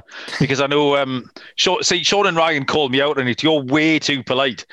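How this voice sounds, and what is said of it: Geordie accent. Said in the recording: “accent ... Geordie”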